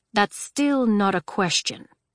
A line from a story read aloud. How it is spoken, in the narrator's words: Julian said